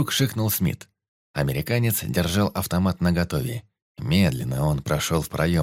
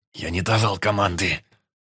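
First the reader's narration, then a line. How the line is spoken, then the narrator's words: Hiss. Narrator (Russian): прошипел Карпов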